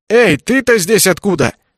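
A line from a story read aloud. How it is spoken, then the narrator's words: Shouted. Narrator (Russian): крикнул мне он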